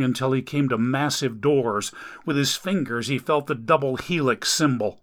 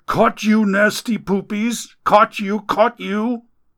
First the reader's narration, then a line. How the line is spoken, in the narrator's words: Amelia continued to scream